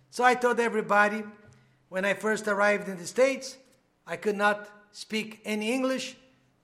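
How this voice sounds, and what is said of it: Non-native English accent. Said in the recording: “when people ask me where I am from because of my accent”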